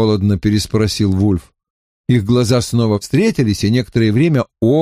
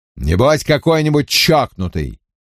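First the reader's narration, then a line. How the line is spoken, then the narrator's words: Irritated, curt. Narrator (Russian): раздраженно бросил инспектор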